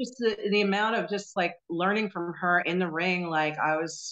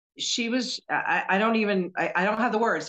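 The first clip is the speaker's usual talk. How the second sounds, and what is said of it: Stuttering, halting speech. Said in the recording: “Can you tell? I'm stuttering.”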